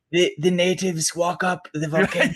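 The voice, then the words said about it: Werner Herzog impression, thick German accent. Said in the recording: “your Werner Herzog impression ... It's a very thick German accent. ... That was a little bit more like Mandalorian Werner Herzog.”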